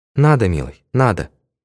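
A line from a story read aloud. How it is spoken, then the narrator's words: Sad smile. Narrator (Russian): грустно улыбнулась она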